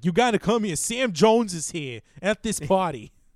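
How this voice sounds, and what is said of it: Poorly done Boston accent. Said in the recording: “I'm doing an awful Boston accent”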